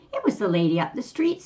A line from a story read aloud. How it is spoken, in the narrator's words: said the boy